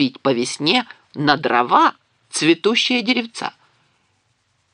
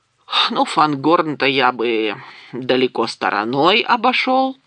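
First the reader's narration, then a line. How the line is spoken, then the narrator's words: Sighing. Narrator (Russian): вздохнул Гимли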